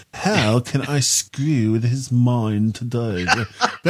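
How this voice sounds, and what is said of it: Poor put-on English accent impression. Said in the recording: “That's not actually what you sound like, though... not a good Gaz impression, it's not even a good English accent impression.”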